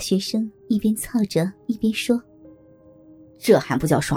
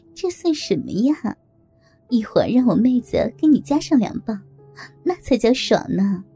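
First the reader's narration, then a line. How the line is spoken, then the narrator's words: Flirtatious laugh. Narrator (Chinese): 梅姐浪笑着说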